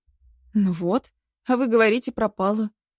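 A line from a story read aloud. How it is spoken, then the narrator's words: Relieved sigh. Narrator (Russian): вздохнула я с облегчением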